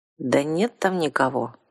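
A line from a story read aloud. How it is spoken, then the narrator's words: Confused objection. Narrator (Russian): растерянно возразил вампир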